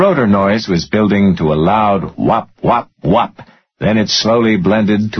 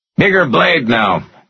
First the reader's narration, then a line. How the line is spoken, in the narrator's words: DeWitt shouted